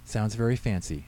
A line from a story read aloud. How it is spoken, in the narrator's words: she said